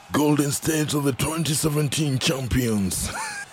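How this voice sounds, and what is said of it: Attempted American accent, not convincing. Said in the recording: “I think I'm quite off as far as the American accent is concerned right there.”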